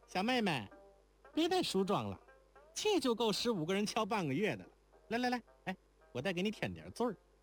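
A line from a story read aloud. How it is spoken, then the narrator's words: Laughing. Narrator (Chinese): 那高玉环笑道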